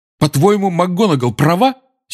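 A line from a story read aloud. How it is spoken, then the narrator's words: Angry. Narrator (Russian): сердито обратился Гарри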